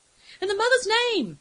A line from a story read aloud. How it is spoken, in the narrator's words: Ashime screamed against the wind